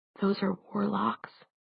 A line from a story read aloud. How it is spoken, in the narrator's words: Clary whispered softly